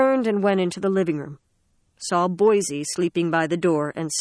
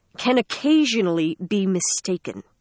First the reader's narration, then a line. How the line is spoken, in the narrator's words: Sarah said coldly